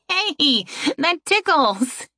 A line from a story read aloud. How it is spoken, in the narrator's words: Erin laughed